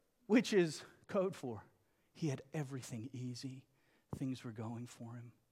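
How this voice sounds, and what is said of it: Usual voice. Nothing is said of it.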